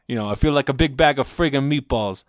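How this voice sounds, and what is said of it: Put-on Italian accent. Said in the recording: “the Italian accent”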